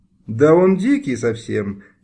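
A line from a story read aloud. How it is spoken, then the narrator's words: Laughing. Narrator (Russian): Галя Черешня рассмеялась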